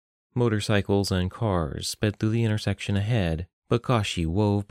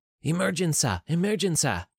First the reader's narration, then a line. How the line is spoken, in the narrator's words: she yelled